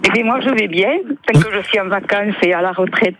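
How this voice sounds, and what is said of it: Slight regional French accent. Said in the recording (French): “le petit accent qui va bien”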